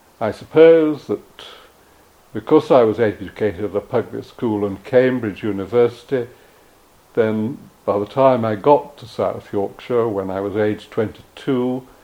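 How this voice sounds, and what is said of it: Upper-class English accent. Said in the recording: “my accent is an upper-class English accent”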